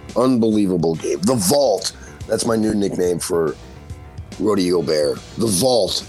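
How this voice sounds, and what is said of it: Hoarse voice. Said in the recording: “I was screaming so loud. Listen to my voice, man. It's hoarse right now.”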